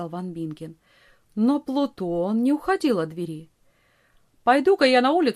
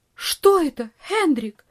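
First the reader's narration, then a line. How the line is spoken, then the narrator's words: Startled cry. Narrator (Russian): вскрикнула тетушка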